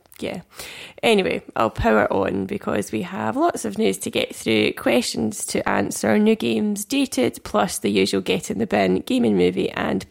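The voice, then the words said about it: Sick, deep gruff voice. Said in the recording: “Apologies for my vocals this week. I'm a little under the weather ... Why do you sound like a man? ... make it not like this ... Just more gruff.”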